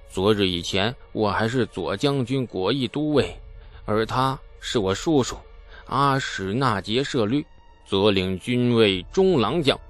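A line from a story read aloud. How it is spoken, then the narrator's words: Sighing. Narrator (Chinese): 贺罗谷叹道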